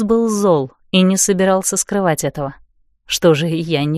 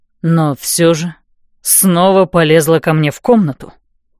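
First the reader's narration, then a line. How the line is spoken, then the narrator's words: Angry exhaled words. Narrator (Russian): зло выдохнул он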